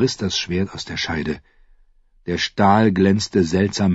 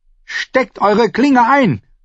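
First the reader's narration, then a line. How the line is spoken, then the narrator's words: Shouting at someone. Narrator (German): schrie sie Stannis an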